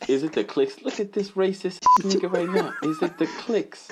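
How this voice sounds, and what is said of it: Usual voice. Nothing is said of it.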